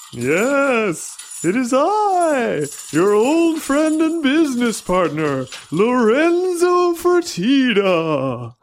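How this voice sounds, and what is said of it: Spooky ghost-like voice. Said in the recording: “talking like a ghost?”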